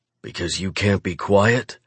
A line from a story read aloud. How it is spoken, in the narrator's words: I growl